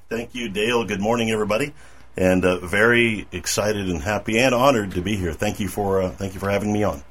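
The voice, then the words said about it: Polished radio-announcer voice. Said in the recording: “the man with the radio voice”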